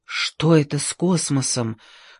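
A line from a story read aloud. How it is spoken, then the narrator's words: Whispered question. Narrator (Russian): шепотом спросил Джордж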